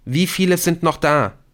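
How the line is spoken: Called after. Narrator (German): rief Nick ihm nach

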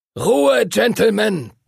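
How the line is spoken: Thundering. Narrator (German): donnerte Master Duncan

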